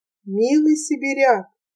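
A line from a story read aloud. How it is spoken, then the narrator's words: Soft, cello-like voice. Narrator (Russian): как звук виолончели мягко молвила Авдотья Фоминишна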